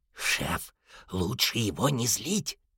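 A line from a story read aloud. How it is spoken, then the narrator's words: Whispered. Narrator (Russian): шепнул он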